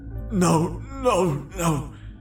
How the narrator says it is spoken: I cried pathetically

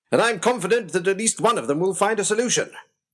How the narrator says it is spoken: shouted

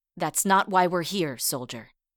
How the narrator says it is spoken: Rosie replied in a stern voice

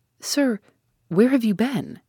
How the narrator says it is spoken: she cried, but strange to say, in a low tone

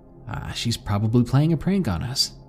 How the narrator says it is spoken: Nalia said

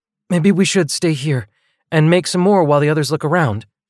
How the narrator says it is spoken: blurted Nevaeh

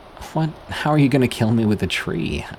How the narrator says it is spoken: scoffed

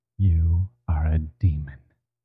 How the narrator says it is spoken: he whispered with his eyes still shut

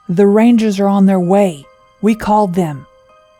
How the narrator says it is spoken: Ross yelled towards the door

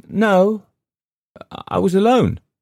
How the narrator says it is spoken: she said, and her voice showed her surprised at the realization

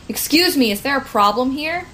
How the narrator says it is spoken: Corey she would sort of yell over

